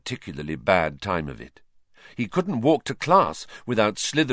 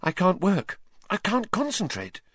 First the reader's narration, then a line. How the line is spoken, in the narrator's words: she said nervously